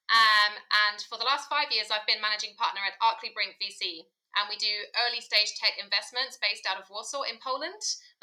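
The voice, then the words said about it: British English accent. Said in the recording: “you can probably hear from my accent, I'm from the UK originally”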